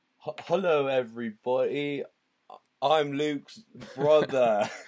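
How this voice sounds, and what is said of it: Put-on British accent. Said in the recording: “that's not a British accent ... I'm British ... I'm not actually British ... I was just feeling really British”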